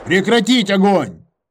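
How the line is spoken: Shouting into radio. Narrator (Russian): прокричал в рацию

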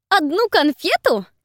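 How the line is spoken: Shriek. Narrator (Russian): взвизгнула Фелисити

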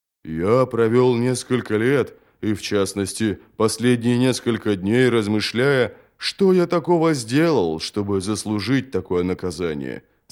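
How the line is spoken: Plain. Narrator (Russian): сказал Джот

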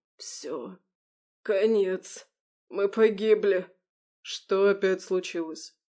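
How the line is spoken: Gasping, wheezing. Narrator (Russian): хватая ртом воздух, прохрипел

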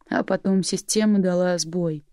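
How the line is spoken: Flat, colorless voice. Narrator (Russian): продолжил бесцветным голосом

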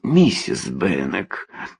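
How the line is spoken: Moaning. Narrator (Russian): простонал он

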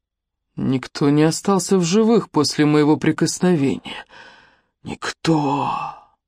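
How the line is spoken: Hoarse rasp. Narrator (Russian): Хрипит он

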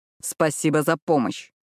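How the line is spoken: Snapping retort. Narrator (Russian): огрызнулся на него Сайлас

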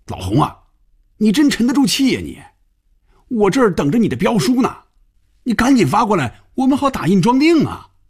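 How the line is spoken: Loud shouting. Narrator (Chinese): 范宇宙冲红军大声喊着

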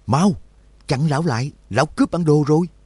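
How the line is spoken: Loud shout while chasing. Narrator (Vietnamese): Mơ Khiên đuổi ở phía sau hét lớn

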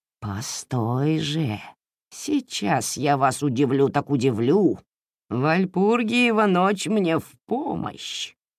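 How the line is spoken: Witch's spiteful hiss. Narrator (Russian): Злобно прошипела лесная ведьма

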